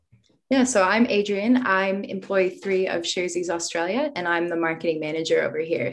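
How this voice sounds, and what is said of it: American accent. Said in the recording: “It doesn't sound like a Kiwi accent, though... I am an American, so I feel a bit disingenuous touting my accent”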